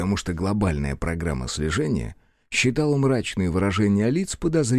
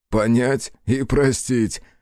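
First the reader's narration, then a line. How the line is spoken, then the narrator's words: Short chuckle. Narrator (Russian): хохотнул Захар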